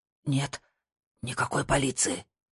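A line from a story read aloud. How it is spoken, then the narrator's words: Whisper. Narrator (Russian): прошептал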